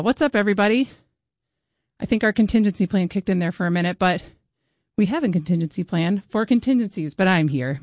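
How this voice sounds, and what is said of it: Slightly out of breath. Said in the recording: “If I'm a little out of breath”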